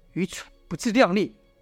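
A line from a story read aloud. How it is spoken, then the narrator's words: Low cursing. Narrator (Chinese): 秦璐低声骂道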